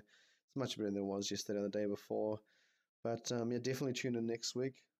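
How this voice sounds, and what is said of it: Congested, blocked-nose voice. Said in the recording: “my nose is a bit blocked ... You'll be getting a sense of the cold still hanging in there”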